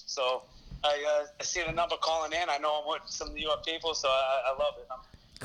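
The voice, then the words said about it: Thick New York accent. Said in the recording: “You got a thick accent there”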